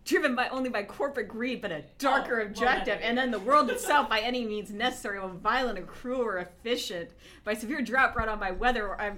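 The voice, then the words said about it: Imitates another person's voice. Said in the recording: “That was a fairly good Shatner”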